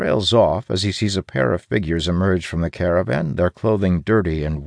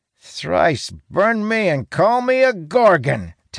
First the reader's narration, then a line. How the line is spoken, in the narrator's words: Talon exclaims, laughing uproariously